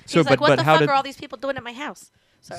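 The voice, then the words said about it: Imitates another person's voice. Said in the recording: “the worst Mark Maron impression”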